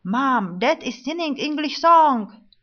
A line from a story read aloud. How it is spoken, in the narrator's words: my sons shouted